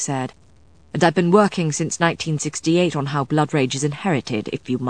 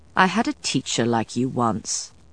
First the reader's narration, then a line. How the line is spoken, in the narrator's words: Matthew said coldly